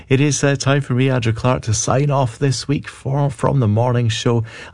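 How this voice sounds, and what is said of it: Scottish accent. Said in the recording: “Scottish accent”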